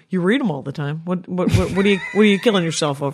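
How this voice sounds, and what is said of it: Lower, quieter inner voice. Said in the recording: “your voice of truth was a little bit lower in tone... It's a little quieter”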